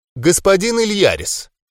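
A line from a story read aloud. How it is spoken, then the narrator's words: Suddenly loud. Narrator (Russian): неожиданно громко проговорила она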